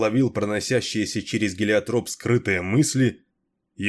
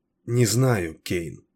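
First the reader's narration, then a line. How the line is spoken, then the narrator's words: Uncertain mumble. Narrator (Russian): неуверенно пробормотала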